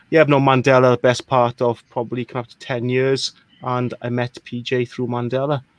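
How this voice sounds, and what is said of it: Welsh accent. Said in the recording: “I'm not from Ireland. I'm from a small country called Wales, which explains the accent.”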